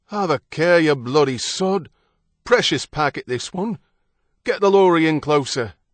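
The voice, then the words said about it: British dock worker accent. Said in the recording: “The accents of British dock workers could be heard out there.”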